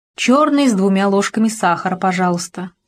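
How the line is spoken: Plain. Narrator (Russian): сказал он

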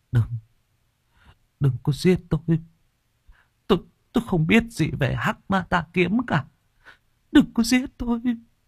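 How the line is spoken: Delirious faint stammer. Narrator (Vietnamese): trong cơn mê man, thằng Duy lắp bắp thều thào

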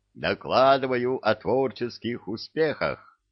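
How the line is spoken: Cheerful report. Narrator (Russian): радостно доложила центральная

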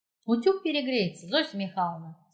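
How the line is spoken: Plain. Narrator (Russian): сказала Катя

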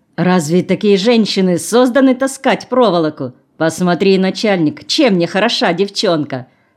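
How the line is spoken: Loud laughter. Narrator (Russian): захохотала

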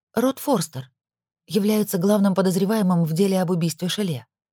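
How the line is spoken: Soft reply. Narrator (Russian): мягко ответила

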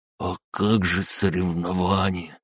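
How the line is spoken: Forced half-whisper. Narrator (Russian): выдавил он полушепотом

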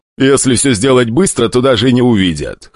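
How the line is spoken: Snorting. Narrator (Russian): хмыкнул старатель

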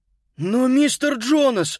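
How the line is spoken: Frightened exclamation. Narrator (Russian): испуганно воскликнул Питер

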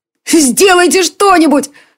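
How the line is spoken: Tearful shout. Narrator (Russian): сквозь слезы закричал Мика

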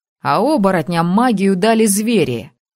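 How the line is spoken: Wry snort. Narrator (Russian): хмыкнул Тор

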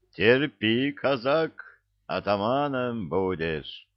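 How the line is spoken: Cheerful encouragement. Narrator (Russian): Весело подбодрил его капитан, настроение которого поднималось

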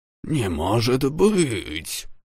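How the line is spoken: Amazed mutter. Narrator (Russian): изумленно пробормотал он, увидев летящий корабль

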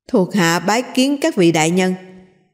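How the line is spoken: Startled, hurried, raised voice. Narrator (Vietnamese): Kim Kiền hoàng hồn, vội vàng cao giọng nói

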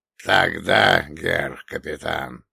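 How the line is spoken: Hoarse rasp. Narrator (Russian): прохрипел он

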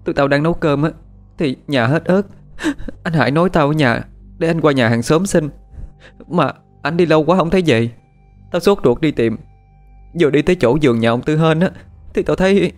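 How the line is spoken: Choked broken tearful speech. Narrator (Vietnamese): Tuyết mới thôi khóc, nghẹn ngào nói câu được câu mất

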